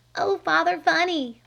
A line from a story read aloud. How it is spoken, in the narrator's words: pleaded